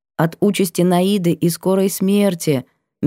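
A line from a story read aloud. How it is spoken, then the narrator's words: Soft correction. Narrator (Russian): мягко поправила я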